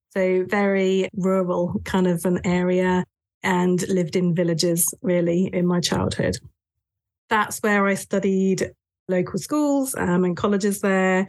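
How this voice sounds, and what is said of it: English accent, southern England. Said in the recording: “I'm English, as you might realize with my accent ... born and raised in the south of England”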